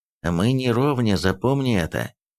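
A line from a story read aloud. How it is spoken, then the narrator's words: Angry, through gritted teeth. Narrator (Russian): процедил Эрих зло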